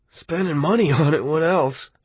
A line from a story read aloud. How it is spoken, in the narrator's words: Arnie said, and laughed his almost genuine laugh